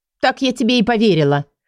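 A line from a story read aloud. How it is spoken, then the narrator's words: Scoffing snort. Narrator (Russian): фыркнула она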